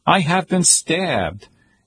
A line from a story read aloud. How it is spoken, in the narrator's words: shows him pleading